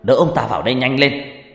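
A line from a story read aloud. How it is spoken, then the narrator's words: Shouting. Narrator (Vietnamese): Ông thầy hét lên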